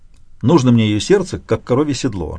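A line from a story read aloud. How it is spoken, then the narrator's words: Irritated blurt. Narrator (Russian): раздраженно ляпнул я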